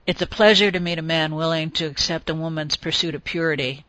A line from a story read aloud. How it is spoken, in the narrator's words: somewhat drunkenly murmured